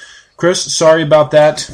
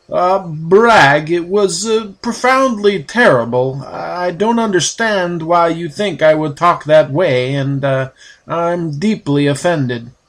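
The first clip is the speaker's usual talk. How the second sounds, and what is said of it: Poor imitation of another person's voice. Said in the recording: “I do a terrible Christopher Walken impression.”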